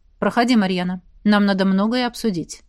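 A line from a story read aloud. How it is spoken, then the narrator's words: Cold. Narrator (Russian): сказал Хордон холодно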